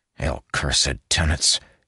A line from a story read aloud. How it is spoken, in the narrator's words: he muttered